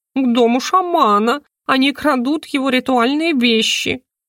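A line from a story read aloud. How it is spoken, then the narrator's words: Groaning. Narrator (Russian): Иску застонал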